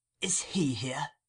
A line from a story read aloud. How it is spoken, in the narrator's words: The Jew said in a whisper